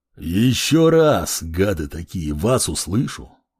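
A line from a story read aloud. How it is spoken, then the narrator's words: Angry mutter. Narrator (Russian): злобно пробурчал напоследок воин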